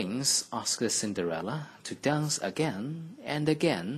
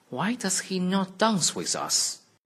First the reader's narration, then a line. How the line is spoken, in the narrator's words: they cried